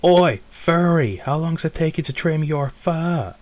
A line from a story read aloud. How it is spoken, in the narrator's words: You hear one of them sort of shout over